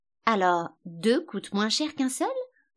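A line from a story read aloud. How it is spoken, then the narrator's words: Surprised question. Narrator (French): demanda Alice d'un ton surpris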